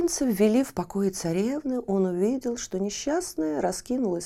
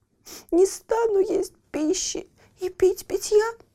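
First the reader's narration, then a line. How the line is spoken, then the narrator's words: Sobbing. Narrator (Russian): всхлипывала она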